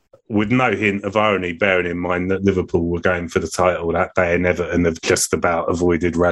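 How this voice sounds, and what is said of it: Usual voice. Nothing is said of it.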